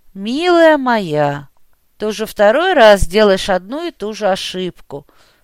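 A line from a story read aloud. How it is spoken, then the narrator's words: Sighing. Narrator (Russian): вздохнул я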